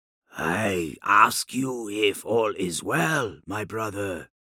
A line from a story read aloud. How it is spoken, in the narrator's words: Yashugai said quietly